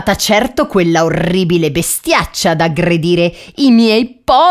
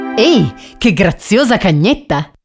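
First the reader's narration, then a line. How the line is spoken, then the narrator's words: Tramp's exclamation. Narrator (Italian): esclamò il vagabondo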